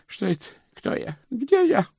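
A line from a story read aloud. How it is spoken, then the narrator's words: Groaning. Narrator (Russian): простонал Стоули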